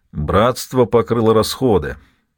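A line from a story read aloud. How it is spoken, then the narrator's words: Grumbling. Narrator (Russian): проворчал Фудир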